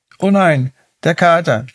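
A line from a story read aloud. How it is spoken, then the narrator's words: Startled cry. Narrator (German): rief Mila erschrocken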